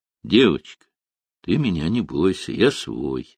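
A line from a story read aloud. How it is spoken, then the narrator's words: Quiet, in Polish. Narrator (Russian): сказал он тихо по-польски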